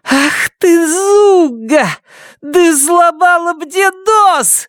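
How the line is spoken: Shrill squeal. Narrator (Russian): взвизгнула Бетси

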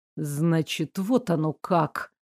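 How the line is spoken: Hissed. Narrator (Russian): буквально прошипел

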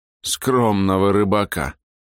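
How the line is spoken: Scornful snort. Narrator (Russian): хмыкнул наш сопровождающий

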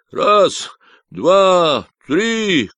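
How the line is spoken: Shout. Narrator (Russian): крикнул Робба

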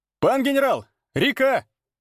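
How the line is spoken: Joyful shout. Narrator (Russian): Обрадованно прокричал вахмистр

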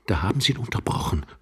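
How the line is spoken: Young man's gritted whisper. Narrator (German): flüsterte der junge Mann knirschend

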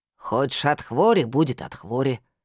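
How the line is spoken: Herbalist muttering. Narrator (Russian): пробурчала травница

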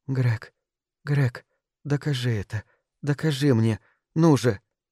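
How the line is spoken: Breathless whisper. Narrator (Russian): Микаэла ... она не могла вздохнуть, и только шептала

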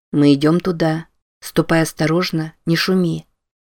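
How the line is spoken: Quiet speech. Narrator (Russian): негромко произнес

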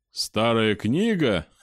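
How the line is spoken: Laughing. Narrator (Russian): рассмеялся Славонич

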